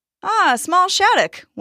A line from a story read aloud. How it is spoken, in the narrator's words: one person exclaimed